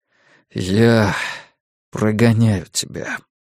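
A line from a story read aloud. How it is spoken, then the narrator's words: Gloomy. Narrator (Russian): мрачно ответил Стью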